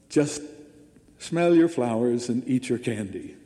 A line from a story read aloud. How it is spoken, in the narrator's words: he simply chuckled and said